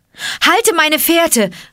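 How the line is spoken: Called out. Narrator (German): rief Mowgli ihm zu

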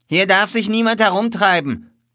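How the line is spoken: Calling out a warning. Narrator (German): rief er uns zu

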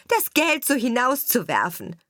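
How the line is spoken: Shout. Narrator (German): rief die Stiefschwester

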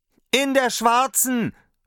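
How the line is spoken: Call. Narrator (German): rief Daumerling

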